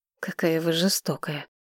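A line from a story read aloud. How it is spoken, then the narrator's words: Muttering. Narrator (Russian): пробормотал он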